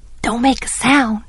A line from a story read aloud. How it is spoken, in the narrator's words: he whispered